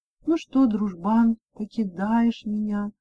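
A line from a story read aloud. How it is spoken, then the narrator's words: Sad, sighing. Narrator (Russian): грустно сказала и вздохнула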